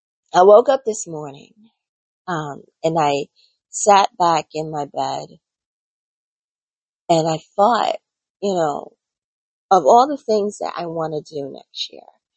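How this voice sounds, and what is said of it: Slightly cracky early-morning voice. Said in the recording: “my voice hasn't really warmed up yet. So if I sound like I'm a little cracky”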